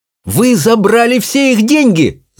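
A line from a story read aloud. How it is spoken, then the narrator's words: Shouting. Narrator (Russian): закричала Чармейн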